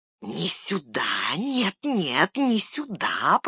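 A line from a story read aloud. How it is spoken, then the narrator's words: Hissing. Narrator (Russian): прошипел Горлум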